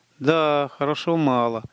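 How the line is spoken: Sighing. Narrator (Russian): вздохнул Каллум

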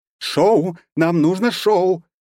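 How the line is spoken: Pixie yelling close by. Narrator (Russian): у меня над ухом продолжала вопить пикси

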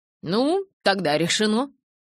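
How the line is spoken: Plain. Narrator (Russian): сказал я

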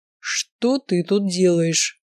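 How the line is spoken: Beastly growling question. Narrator (Russian): снова спросил он, и на этот раз мне показалось, что рядом прорычал дикий зверь

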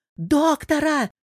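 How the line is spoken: Yelling. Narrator (Russian): заорал Ростик

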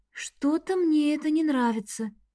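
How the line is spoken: Quiet. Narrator (Russian): сказала я тихо

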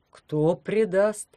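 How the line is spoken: Bewildered question. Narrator (Russian): растерянно спросил он

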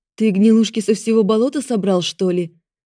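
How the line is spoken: Sharp retort. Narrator (Russian): Резко бросила я

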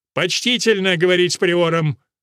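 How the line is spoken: Sharp rebuke. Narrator (Russian): прикрикнул архидиакон Ллойд

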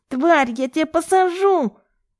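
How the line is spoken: Nasal yelling. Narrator (Russian): вопит гнусаво Артем

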